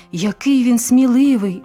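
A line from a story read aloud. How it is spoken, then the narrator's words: Excited exclamation. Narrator (Ukrainian): збуджено вигукнув Олег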